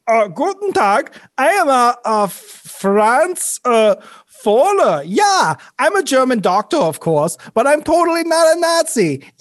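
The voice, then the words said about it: Fake German accent. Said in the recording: “I retained my German accent”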